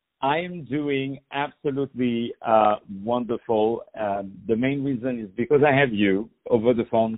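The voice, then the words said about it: Speaks with a noticeable accent. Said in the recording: “As you can hear, my accent got a little bit worse. it got a little bit better somehow”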